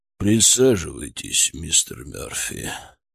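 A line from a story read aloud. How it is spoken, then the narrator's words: Low flowing voice. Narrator (Russian): текучим низким голосом сказал он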